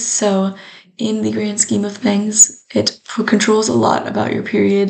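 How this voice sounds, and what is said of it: Rough, hoarse voice. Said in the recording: “apologize for my voice. It's very rough today.”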